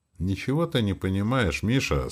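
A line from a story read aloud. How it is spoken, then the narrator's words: Plain. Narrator (Russian): сказал граф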